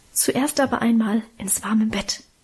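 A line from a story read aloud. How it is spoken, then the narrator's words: Mother's whisper. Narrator (German): flüsterte Mutter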